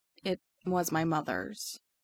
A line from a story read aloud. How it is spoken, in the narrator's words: he says, so quietly it's hard to hear him over the music